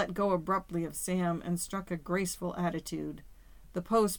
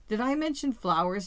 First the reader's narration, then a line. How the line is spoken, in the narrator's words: he cried